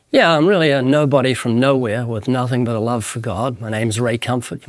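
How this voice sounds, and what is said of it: Slight New Zealand accent. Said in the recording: “a very slight accent. ... I'm from the country of New Zealand”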